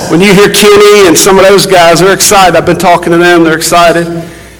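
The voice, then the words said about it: Noticeable Southern US accent. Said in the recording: “You think me and ... got some accents.”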